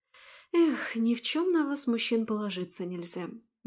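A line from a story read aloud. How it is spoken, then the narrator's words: Sighing. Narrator (Russian): вздохнула я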